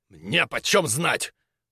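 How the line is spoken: Sharp. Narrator (Russian): резко ответил Крюгер

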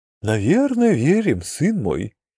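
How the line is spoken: Sighing. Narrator (Russian): вздохнул Дрикозиус

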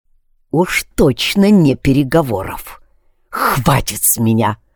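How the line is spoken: Said through gritted teeth. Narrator (Russian): Процедил я

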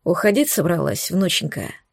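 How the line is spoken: Hoarse question. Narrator (Russian): спросил сиплым голосом

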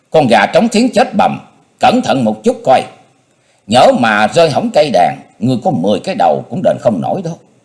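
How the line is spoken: Old woman shouting. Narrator (Vietnamese): Á cung nữ già nhịn không được quát lên

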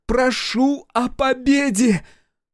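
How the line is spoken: Full-force shout. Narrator (Russian): со всех сил крикнула Акулина

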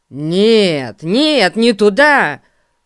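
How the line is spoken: Surprised exclamation. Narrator (Russian): воскликнул удивленный Эрн

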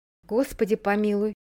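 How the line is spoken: Half-voiced sigh. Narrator (Russian): полголоса вздохнула мисс Полли

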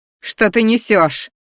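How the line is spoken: Roaring. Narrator (Russian): взревела я

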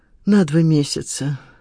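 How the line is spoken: Sighing. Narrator (Russian): вздохнула Лида

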